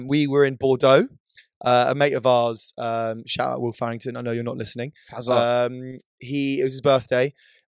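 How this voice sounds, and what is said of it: Hoarse, fading voice. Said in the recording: “I'm sort of in the process of slowly losing my voice.”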